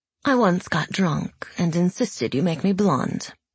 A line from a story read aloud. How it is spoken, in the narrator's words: said Zoya calmly